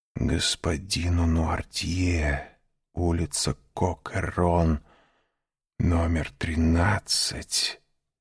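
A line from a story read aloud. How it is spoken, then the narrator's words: Frightened whisper. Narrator (Russian): прошептал он, побледнев еще сильнее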